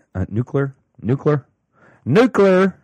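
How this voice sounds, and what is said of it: Imitates another person's voice. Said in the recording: “my Bush impression”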